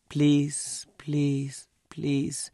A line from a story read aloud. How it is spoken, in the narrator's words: more softly each time